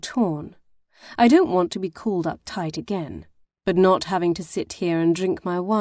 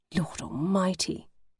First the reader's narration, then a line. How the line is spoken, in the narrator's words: whisper